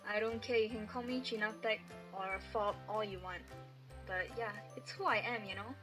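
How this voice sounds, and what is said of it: Malaysian accent. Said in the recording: “are you ashamed of your Malaysian accent? ... I made it a point to retain my accent despite being here for like 5 years”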